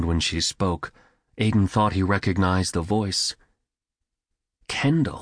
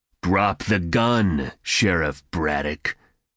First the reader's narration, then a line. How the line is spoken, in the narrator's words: bigger one growled